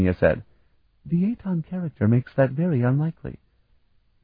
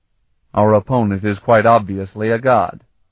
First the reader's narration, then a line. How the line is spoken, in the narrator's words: Zelasta said firmly